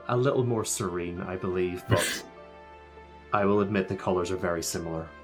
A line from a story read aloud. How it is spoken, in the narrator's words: She laughs and said